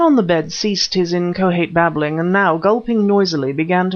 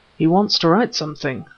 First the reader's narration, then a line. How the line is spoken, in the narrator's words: said Smith, in a low voice